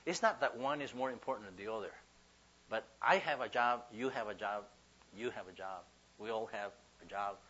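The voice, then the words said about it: Ricky Ricardo-like accent. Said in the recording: “the accent is not taking you somewhere else. Ricky Ricardo or something like that.”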